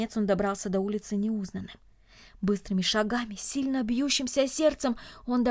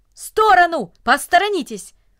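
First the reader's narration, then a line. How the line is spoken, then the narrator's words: Brisk urgent shout. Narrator (Russian): Деловито, как будто у него было какое-то срочное дело, даже закричал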